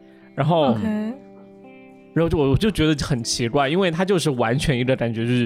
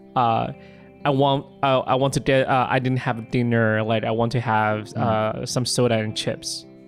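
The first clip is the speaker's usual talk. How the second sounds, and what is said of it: Strong American-accented English. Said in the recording (Chinese): “真的是很美国口音的英文”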